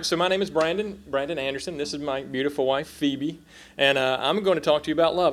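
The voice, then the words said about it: South Carolina Southern American accent. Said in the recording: “If you hear my accent, that's what that is. We moved here from South Carolina”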